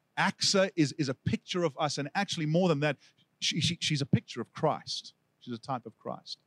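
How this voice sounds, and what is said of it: South African accent. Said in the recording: “my South African accent ... I have kept it”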